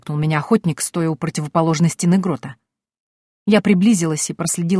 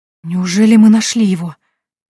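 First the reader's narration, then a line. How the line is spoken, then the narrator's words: Breathless, excited. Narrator (Russian): выдохнула я, чувствуя, как бешено колотится сердце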